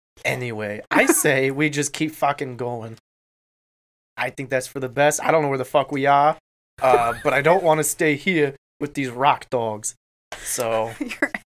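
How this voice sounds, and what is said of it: Exaggerated New York accent. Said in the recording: “Your accent has gone very New York. ... it's getting aggressive.”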